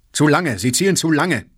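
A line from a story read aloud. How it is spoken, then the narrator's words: Loud, urgent. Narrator (German): drängte Kirillow laut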